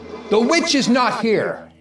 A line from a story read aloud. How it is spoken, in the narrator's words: the shadow on the wall called out